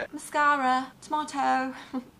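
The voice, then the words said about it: Put-on British English accent. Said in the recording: “Mascara is another really fun word to say in an English accent.”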